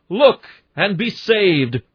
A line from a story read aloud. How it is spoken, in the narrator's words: I hear a shout